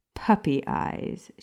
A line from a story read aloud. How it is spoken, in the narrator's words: said with a scoff